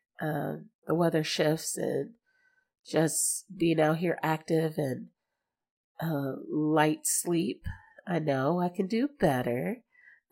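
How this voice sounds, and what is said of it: Congested voice. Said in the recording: “You may not hear it in my voice. I'm a little congested this week ... But I'm a little congested.”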